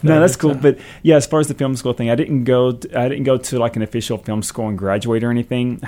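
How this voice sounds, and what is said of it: Hillbilly Southern US accent. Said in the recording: “My hillbilly accent”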